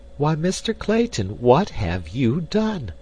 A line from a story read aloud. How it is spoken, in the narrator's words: cried Jane Porter, her heart sinking within her as she realized the probable size of the expenditure that had been made